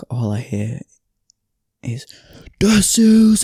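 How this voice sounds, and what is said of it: Gruff northern English accent shout. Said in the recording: “He's from Bolton, really gruff northern accent.”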